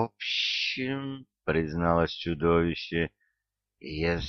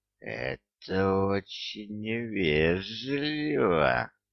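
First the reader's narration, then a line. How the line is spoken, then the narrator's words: Offended hiss. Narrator (Russian): обиженно прошипело оно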